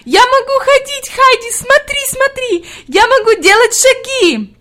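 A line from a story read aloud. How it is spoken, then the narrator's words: Delighted shouting. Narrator (Russian): Хади закричала в ответ с еще большим восторгом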